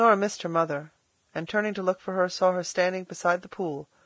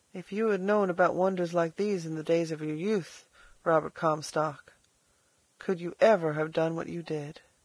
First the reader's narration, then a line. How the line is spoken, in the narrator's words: said softly